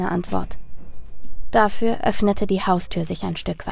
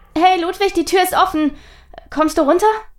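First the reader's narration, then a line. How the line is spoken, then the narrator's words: Called out. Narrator (German): rief nun auch Charlotte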